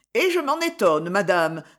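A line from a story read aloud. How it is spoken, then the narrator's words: Brisk, lively. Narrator (French): dit-elle vivement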